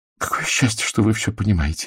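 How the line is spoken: Breathed out. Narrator (Russian): выдохнула Урсула

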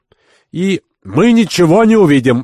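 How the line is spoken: Shouting. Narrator (Russian): закричал Кирабан

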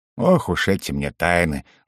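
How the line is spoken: Sighing. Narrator (Russian): вздохнул Гло-Гло

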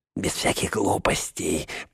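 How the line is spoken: Through gritted teeth. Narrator (Russian): процедил он

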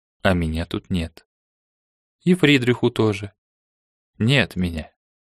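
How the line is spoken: Quiet. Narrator (Russian): тихо сообщил

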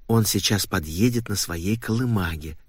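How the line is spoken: Mother's whisper. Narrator (Russian): шепнула мама, обращаясь к отцу

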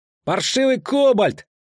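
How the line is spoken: Street urchin yelling. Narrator (Russian): заорал, убегая босой грязный беспризорник

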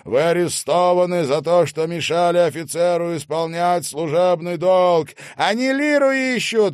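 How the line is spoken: Shout. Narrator (Russian): выкрикнул Элис

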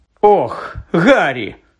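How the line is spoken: Exclaimed. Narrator (Ukrainian): вигукнула вона

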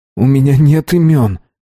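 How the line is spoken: Pleading tone. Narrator (Russian): умоляющим тоном сказал я

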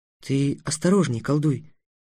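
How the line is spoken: Whispered. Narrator (Russian): прошептала Тиана

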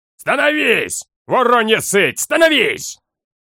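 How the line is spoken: Heralds bellowing. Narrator (Russian): Орали харадские глашатые

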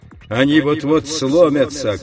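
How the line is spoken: Shouting. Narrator (Russian): кричал он

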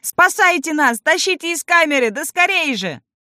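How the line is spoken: Shouting. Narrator (Russian): Гном закричал

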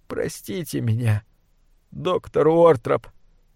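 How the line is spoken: Whimpering. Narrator (Russian): прохныкал я

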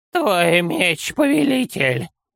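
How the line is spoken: Creaky, cold voice. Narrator (Russian): Скрипучим и холодным голосом произнес Санделла

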